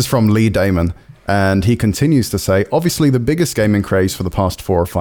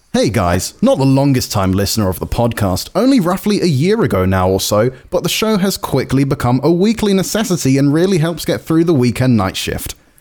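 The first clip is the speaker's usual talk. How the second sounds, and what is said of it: Upbeat voiceover announcer voice. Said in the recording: “So I'm going to sound happy. ... Do it in your best VO voice.”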